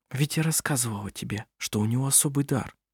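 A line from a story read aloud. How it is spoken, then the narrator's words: Whisper. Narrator (Russian): прошептала она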